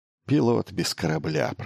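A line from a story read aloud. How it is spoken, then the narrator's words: Muttered under breath. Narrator (Russian): пробормотал он себе под нос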